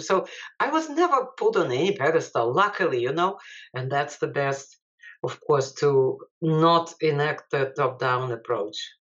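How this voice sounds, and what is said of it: Non-native English accent. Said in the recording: “being like, you know, an immigrant scholar ... having my accent”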